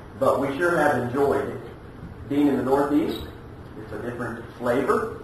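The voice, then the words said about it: Non-Northeastern regional American dialect. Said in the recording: “We're not from these parts. I don't have to tell you that. You can just listen to our dialect.”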